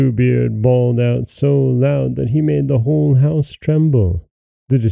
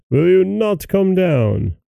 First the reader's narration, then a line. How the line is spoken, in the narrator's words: cried Bluebeard